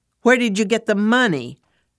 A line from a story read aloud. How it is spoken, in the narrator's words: Her tone was accusing